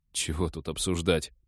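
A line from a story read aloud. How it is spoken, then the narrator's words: Puzzled mutter. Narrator (Russian): пробормотал с недоумением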